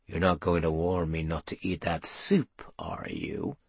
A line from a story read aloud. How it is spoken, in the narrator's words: Pewter said in a low voice